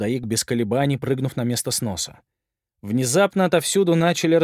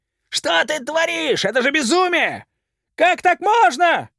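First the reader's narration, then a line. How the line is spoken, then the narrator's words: Crowd shouting. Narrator (Russian): кричали люди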